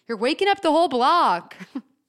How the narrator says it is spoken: you come down and yell

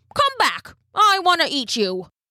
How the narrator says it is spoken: he called out

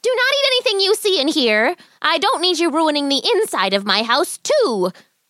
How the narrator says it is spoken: the old woman shouted

